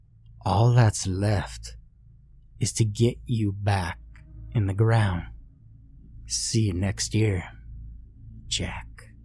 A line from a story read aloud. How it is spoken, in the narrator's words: whispered in his ear